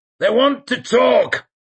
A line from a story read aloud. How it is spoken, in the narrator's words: he shouted